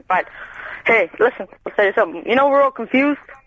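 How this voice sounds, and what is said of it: American accent. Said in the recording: “Where's your accent from? ... It's from the US of A. ... Oh, America.”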